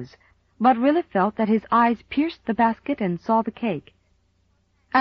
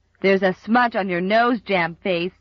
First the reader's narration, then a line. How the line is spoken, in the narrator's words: jeered Bill Palmer